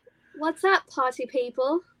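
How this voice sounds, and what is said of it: Put-on British accent. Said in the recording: “the British accent. ... That was great. ... That was good.”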